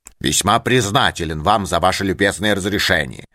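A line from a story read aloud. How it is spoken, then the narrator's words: Angry muttering. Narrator (Russian): пробурчал сердитый профессор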